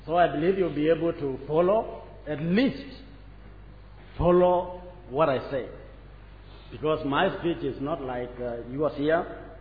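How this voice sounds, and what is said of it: African-accented English. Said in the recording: “I'm an African, and I speak with African accent.”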